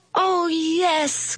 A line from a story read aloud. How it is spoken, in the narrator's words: cried the kids